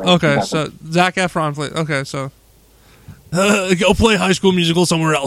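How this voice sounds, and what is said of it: Imitates another person's voice. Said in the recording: “my Seth Rogen impression”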